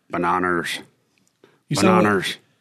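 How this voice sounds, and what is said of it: Liam Neeson impression. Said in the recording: “I do a really good Liam Neeson impression. ... You sound like a Sling Blade.”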